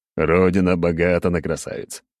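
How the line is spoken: Short laugh. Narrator (Russian): хохотнул я

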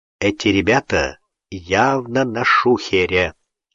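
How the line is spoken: Quiet reply. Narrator (Russian): так же тихо ответил Гуров

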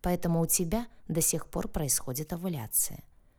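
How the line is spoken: Calm explanation. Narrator (Russian): спокойно объяснил он

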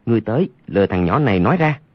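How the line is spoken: Lowered voice. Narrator (Vietnamese): hạ giọng nói

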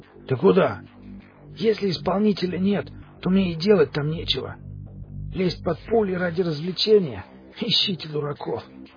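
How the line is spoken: Hoarse wheeze. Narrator (Russian): Просипел Димыч

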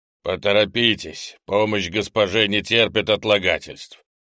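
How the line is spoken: Loud. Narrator (Russian): громко произнес инопланетянин

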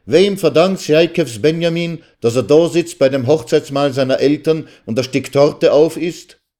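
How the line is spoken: Shouted. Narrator (German): schrie er

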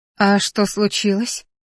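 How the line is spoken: Sleepy question. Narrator (Russian): Сонно спросила

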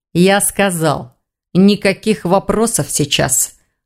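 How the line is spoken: Through gritted teeth. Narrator (Russian): процедил сквозь зубы Хью

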